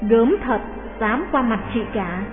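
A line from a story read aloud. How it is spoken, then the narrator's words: Whispered in ear. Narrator (Vietnamese): ghé vào tai nói khẽ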